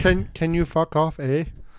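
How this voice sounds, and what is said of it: Put-on Canadian accent. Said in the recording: “Can we have a Mitchell Paisley Canadian accent, please?”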